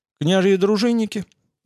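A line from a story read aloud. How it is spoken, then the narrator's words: Calm reply. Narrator (Russian): ответил воит спокойно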